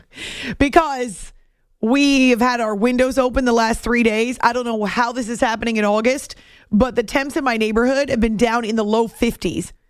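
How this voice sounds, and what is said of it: Husky, raspy voice from allergies. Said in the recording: “This is probably why my voice is weird tonight ... that triggers allergies ... I think my voice is a little huskier, raspier, who knows, sounds more like a lounge singer”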